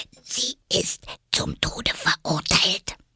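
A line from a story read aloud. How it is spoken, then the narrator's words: Fearful whisper. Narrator (German): ängstlich … hielt den Mund dicht an Alice' Ohr und wisperte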